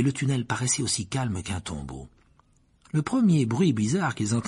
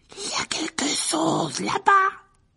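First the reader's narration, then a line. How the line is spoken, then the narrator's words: Hoarse voice. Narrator (French): dit Ron d'une voix rauque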